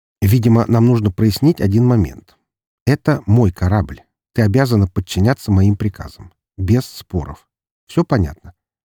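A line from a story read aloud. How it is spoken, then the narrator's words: Calm, unthreatening. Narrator (Russian): говорил спокойно, не излучая угрозы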